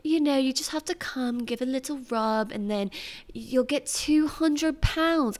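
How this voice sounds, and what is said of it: Poor imitation of British accent. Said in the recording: “She's British ... my accent is horrible”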